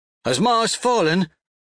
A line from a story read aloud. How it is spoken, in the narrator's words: shouts a brown rifleman